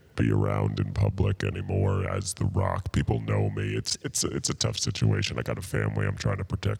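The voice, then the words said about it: Deep masculine imitation of another person. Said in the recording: “more masculine. So this is The Rock ... deep voice”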